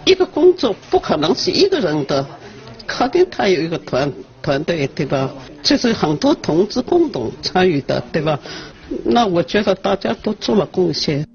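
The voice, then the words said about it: Mandarin with a Ningbo accent. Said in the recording (Chinese): “操着宁波口音的普通话”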